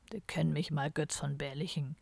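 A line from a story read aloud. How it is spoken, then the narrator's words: Muttering into snow. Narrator (German): murmelte in den Schnee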